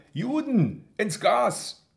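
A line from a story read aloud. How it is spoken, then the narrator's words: Call from behind. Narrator (German): ruft einer schräg hinter mir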